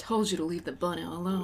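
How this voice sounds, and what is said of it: Imitates another person's voice, Southern drawl. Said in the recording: “Every time you try to do his voice, you sound like you're trying to do a Southern draw. But he can't quite.”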